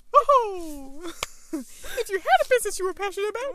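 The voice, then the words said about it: Mickey Mouse cartoon voice. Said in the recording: “Do your Mickey Mouse impression... Wait, why is that so good?... That's so good.”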